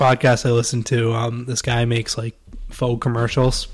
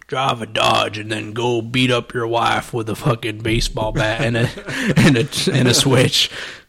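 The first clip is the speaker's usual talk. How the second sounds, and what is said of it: Put-on redneck accent. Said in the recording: “he had, like, this redneck accent.”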